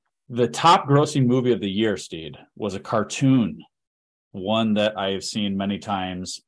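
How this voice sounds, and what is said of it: Usual voice. Nothing is said of it.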